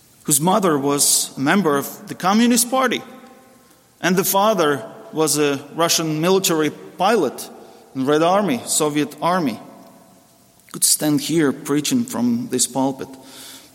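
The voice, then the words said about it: Heavy Russian accent. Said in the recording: “a Russian preacher with a heavy Russian accent”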